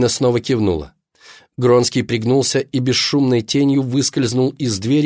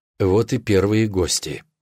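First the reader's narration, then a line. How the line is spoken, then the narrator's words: Whispered. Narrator (Russian): прошептал Гронский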